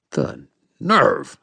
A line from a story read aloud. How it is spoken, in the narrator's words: I snarled